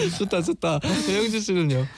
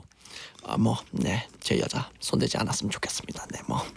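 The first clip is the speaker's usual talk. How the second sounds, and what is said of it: Imitates another person's voice. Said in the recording (Korean): “성대모사로 ... 송강호님이신가요?”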